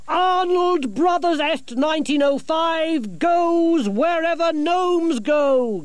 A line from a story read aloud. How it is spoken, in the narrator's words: Gerda shouted